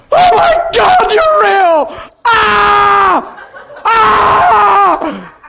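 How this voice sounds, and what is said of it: Screaming loudly. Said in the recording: “I'm screaming louder than you can imagine”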